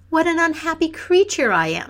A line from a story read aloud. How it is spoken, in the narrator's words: she cried